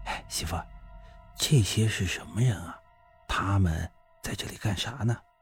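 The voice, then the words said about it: Quiet, hushed speech. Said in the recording (Chinese): “小声的说道”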